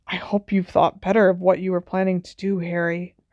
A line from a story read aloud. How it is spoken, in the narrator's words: Hermione whispered